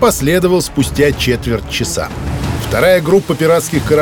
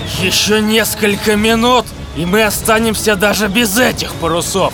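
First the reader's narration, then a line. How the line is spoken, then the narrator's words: Angry growl. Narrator (Russian): Зло зарычал капитан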